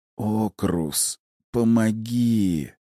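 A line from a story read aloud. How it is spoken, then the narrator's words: Quiet whisper. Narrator (Russian): Файер тихо прошептал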